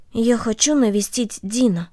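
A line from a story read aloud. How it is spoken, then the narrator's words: Quiet. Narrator (Russian): Корнели тихо сказала ей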